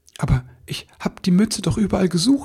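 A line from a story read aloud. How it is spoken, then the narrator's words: Stammering. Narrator (German): stammelte er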